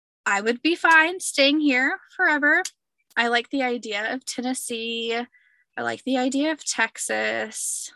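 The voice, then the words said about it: Southern American accent. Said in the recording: “your accent will fit in great there ... I love the South.”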